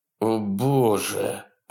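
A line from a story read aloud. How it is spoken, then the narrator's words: Dismayed groan. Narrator (Russian): простонал Вебстер, неожиданно осознавший, что это значит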